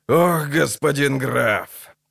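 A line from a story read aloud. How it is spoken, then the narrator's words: Creaky voice. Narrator (Russian): проскрипел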